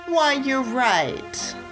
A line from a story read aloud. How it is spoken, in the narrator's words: sneered Queen Beryl